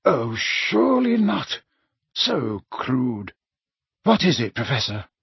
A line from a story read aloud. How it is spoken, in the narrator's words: Dumbledore said, quietly